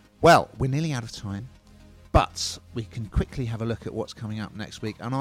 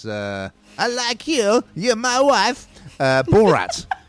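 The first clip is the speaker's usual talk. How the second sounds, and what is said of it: Poor Borat character impression. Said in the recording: “that's a terrible impression ... It was appalling.”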